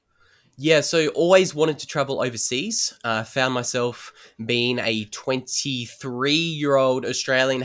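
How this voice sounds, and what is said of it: Australian accent. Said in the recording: “my really dodgy Australian accent”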